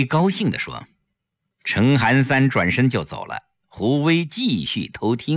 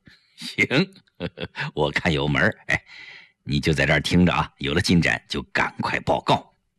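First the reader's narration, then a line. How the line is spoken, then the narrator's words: Soft chuckling. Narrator (Chinese): 陈寒三就笑了，他小声笑着对胡威说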